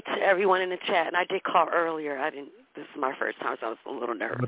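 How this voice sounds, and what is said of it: Congested voice with a cold. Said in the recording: “I have a little cold, and I'm sorry the way I sound.”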